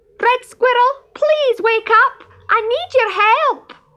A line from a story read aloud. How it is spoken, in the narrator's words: shouted as loudly as he could